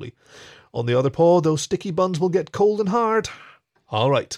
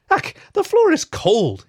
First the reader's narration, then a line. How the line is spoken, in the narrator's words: he gasped